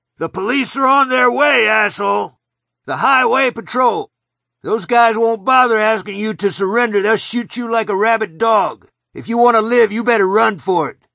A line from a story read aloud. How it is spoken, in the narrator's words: Ralph cupped his hands around his mouth and shouted